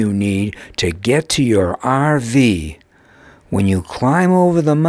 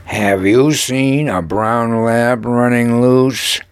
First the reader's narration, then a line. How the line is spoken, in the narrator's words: gruffly inquired Shaper